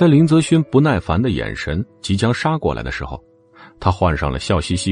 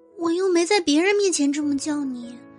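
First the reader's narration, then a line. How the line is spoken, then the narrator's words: Quiet mumbling. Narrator (Chinese): 赵巧巧小声嘟囔了一句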